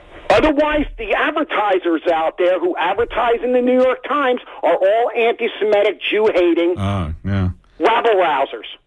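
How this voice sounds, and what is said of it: Yelling, loud angry voice. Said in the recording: “Stop yelling at me for 7 seconds”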